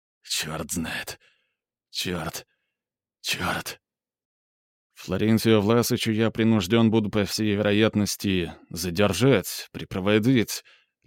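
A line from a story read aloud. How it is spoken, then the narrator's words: Babbling. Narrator (Russian): лепетал Курт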